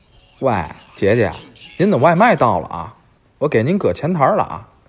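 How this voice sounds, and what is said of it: Tianjin dialect accent. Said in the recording (Chinese): “天津话真的好好玩 ... 这口音是祖传的吧？”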